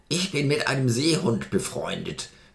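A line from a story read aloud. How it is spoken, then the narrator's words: Grunting geyser. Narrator (German): grunzte der Geysir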